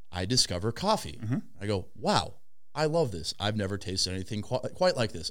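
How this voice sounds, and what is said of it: Put-on little British accent. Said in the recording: “Was that your British accent? You had a little British accent?”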